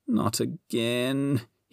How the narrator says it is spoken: he groaned

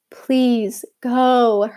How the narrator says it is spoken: her mother pleaded

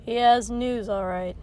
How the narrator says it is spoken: Kotsky wrinkled his nose and let out grimly

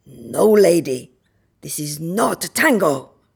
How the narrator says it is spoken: barks

